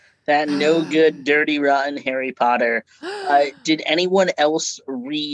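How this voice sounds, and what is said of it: Usual voice. Nothing is said of it.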